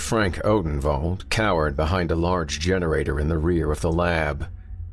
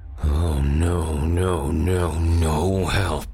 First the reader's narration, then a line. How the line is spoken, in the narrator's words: Frost grunted